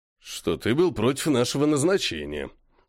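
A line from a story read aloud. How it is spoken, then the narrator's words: Gloomy statement. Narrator (Russian): мрачно сказал Глаз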